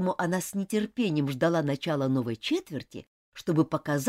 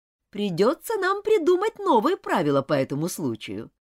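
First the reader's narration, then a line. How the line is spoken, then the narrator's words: Laughing. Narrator (Russian): Миссис Таунсенд рассмеялась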